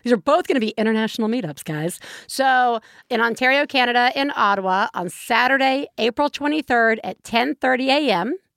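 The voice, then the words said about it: Southern US accent. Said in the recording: “I'm going to butcher this word with my Southern accent”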